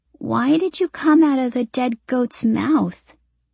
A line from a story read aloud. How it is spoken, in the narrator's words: she asks, noticing that her voice sounds odd